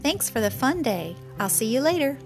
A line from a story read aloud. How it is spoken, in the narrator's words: Crickey chirped back